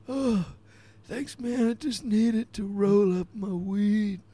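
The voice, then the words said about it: Old man character voice. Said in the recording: “He sounds very old.”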